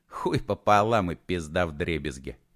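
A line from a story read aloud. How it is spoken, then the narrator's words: Fake laugh. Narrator (Russian): фальшиво хохотнул Матушкин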